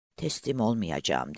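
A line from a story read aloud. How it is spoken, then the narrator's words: Murmured. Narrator (Turkish): diye mırıldandı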